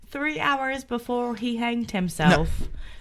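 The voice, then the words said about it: Slips into an Irish accent. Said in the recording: “You slipped into an Irish accent.”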